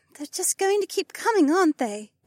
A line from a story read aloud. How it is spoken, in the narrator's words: Becca sighed